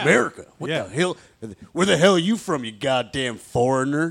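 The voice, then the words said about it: Exaggerated hick American accent. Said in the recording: “I would say American in my most hick voice.”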